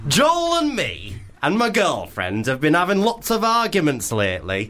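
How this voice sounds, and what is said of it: Exaggerated camp voice. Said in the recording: “did you do that voice on purpose? ... did you think that was quite camp? I thought it was quite manly. ... Really camp.”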